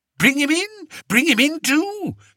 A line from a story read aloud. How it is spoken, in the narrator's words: said Fred excitedly